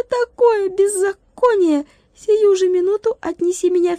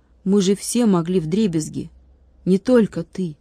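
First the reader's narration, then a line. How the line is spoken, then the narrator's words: Quiet. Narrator (Russian): тихо сказал Владик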